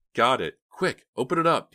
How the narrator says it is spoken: Dina cried excitedly

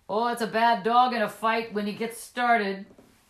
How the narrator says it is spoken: The man called out

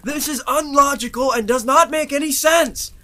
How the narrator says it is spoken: Ebony bellowed out to the air

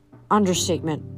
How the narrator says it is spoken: Annabeth muttered

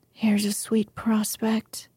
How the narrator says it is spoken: muttered Joe

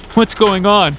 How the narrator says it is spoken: cried frantically

